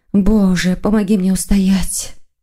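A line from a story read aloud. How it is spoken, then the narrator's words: Sighing. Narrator (Russian): вздохнула Маргарита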